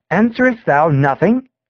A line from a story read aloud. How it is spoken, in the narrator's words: he exclaimed